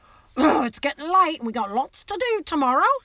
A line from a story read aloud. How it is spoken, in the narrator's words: said Hagrid loudly